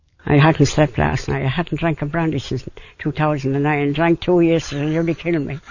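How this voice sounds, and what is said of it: Very thick regional accent. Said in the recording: “Do we need an interpreter here? I mean, that is a thick accent. ... Very thick.”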